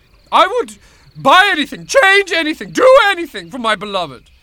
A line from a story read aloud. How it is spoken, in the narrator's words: cried Prince Ibrahim